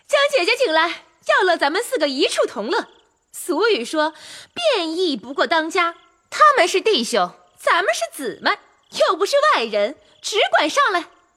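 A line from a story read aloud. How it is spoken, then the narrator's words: Rapid repeated calling. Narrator (Chinese): 尤三姐一叠声又叫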